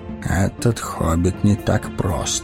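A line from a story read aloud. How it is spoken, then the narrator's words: Muttered. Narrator (Russian): пробормотал Гэндальф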